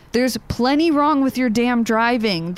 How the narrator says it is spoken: the young woman shouted at her brother

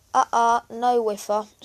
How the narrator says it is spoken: said Bertie

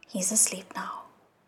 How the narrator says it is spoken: The queen also whispered

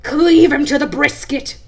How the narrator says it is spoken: At last he cried

